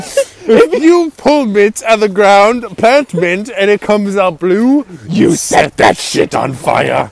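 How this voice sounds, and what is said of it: Shouting. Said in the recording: “We're shouting”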